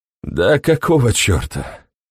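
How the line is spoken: Unexpectedly tired voice. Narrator (Russian): сказал он неожиданно усталым голосом

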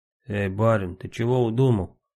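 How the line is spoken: Hoarse voice. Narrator (Russian): спросил Самоха севшим голосом

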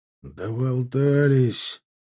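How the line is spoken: Angry mutter. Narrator (Russian): зло буркнул Александр Маратович

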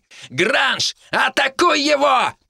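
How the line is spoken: Roared while moving. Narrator (Russian): проревел на ходу Георг

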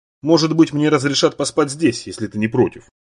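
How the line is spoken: Plain. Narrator (Russian): сказал Юэн

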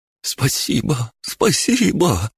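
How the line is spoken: Sobbing. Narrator (Russian): зарыдал

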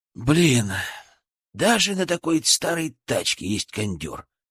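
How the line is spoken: Sighing. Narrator (Russian): вздохнул Максим

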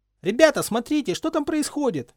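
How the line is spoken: Piercing shout. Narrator (Russian): пронзительно крикнул Колин Криви

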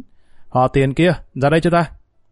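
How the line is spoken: Loud shout. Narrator (Vietnamese): Gã hít một hơi dài quát lớn

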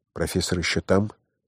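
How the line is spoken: Student's whispered question. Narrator (Russian): шепотом спросил студент

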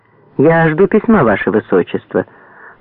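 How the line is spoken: Dry. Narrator (Russian): сухо ответил Дукельский

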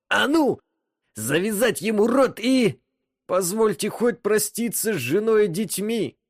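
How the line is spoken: Pleading. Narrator (Russian): Взмолился Джан

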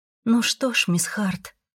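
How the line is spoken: Sad smiling. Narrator (Russian): грустно улыбнулась

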